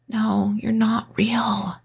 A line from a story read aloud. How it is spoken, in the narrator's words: I whimpered